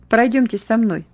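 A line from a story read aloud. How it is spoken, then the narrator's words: Flat, colorless voice. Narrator (Russian): та бесцветным голосом бросила мне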